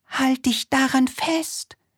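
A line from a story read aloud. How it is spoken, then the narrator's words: Calling out. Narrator (German): rief sie der Libelle zu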